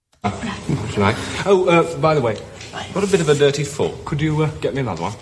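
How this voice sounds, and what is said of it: Posh British accent. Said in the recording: “it sounds very posh”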